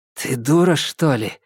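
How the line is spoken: Woman's hoarse question. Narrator (Russian): хрипло спросила женщина

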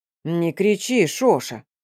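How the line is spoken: Giant grumbling. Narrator (Russian): проворчал великан

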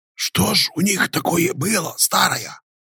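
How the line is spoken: Quiet whisper. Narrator (Russian): тихо прошептал щекастый

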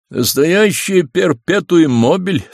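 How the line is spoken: Father speaking while laughing. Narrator (Russian): сказал, смеясь, отец

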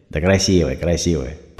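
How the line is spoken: Grumbling. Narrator (Russian): пробурчал Сергей

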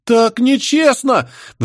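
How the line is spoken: Wailing chorus. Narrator (Russian): взвыли саламандры

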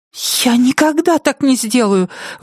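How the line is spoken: Cried out. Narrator (Russian): вскрикнула Нетти

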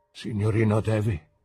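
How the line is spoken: Trembling voice. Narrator (Italian): disse con voce tremante

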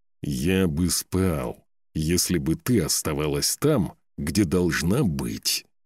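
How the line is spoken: Through gritted teeth. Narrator (Russian): процедил он сквозь зубы

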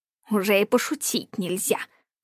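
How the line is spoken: Scoffing snort. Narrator (Russian): фыркнул Ланселот

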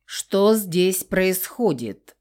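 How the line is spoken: Stern clipped menace. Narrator (Russian): грозно отчеканил охранник

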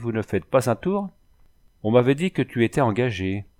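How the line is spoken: Cheerful coachman. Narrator (French): dit gaiement le brave cocher

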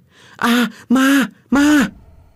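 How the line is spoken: Terrified scream. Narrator (Vietnamese): Cô thét toáng lên

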